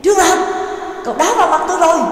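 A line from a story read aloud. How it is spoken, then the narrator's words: Loud shout. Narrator (Vietnamese): lớn tiếng hét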